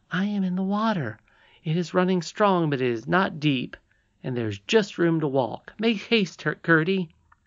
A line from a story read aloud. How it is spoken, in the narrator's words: she cried